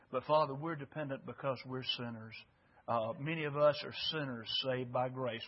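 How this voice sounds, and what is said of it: Fragile, strained voice. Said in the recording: “my voice is very fragile”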